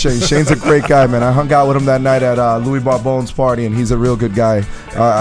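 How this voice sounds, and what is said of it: Usual voice. Nothing is said of it.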